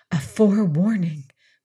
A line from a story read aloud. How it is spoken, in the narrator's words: whispered